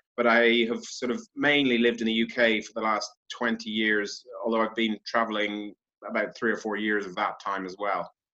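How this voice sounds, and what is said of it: Mixed, hard-to-place Irish accent. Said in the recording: “accent, I can't make it out ... my accent's all over the place ... I'm Irish”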